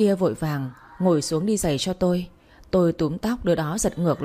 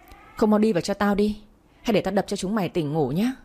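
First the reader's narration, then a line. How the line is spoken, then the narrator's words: Angry shout. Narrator (Vietnamese): Trang trừng mắt quát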